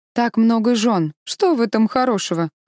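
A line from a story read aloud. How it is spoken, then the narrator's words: Snorting scoff. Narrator (Russian): хмыкнул Сумо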